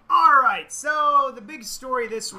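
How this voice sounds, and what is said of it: Pirate voice. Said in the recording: “Why do you sound like a pirate?”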